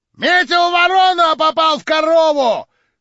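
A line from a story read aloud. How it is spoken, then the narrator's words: Loud shout. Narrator (Russian): крикнул во все горло какой-то дурак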